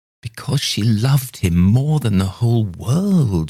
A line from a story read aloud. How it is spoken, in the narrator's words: she exclaimed